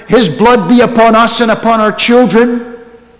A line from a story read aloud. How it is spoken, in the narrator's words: Many of those people who were shouting there